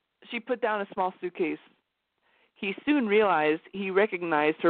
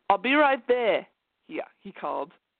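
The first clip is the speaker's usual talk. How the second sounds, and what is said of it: Put-on Australian accent. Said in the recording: “What accent did I give him? Australian.”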